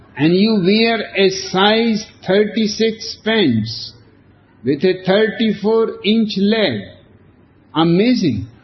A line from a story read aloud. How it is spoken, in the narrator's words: shouts